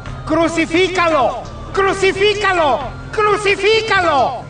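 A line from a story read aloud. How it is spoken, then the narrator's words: Shouting in unison. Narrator (Spanish): Ellos gritaron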